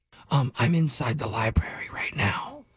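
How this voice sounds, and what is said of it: Whispering. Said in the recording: “Why are you whispering? ... You don't have to whisper.”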